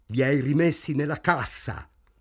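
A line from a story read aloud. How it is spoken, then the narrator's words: Shouted. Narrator (Italian): gridò Morris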